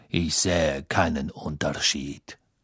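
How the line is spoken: Cold. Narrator (German): Snape sah Hermine kalt an, dann sagte er

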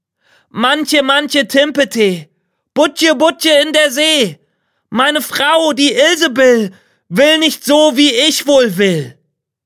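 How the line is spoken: Calling out. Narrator (German): er rief

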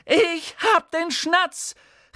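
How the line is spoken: Excited shout. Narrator (German): rief er mit den Armen rudernd

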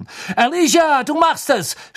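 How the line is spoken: Shout into silence. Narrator (German): schrie Lee in die Stille hinein, die sich über die Menge gesenkt hatte

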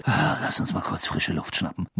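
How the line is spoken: Murmur. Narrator (German): murmelte Ron Harry zu

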